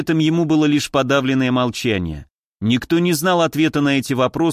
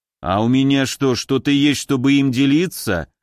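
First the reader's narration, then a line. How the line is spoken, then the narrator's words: Skeptical snort. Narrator (Russian): хмыкнул Магнус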